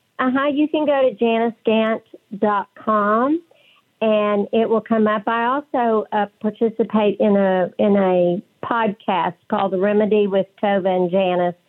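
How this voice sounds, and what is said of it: West Texas accent. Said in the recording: “my West Texas accent ... It's charming.”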